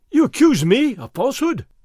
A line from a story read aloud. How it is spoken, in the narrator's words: Fray Felipe cried